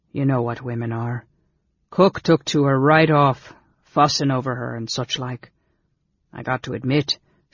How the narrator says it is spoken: Sligart added solemnly

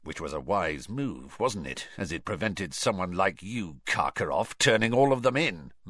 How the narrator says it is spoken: muttered Moody

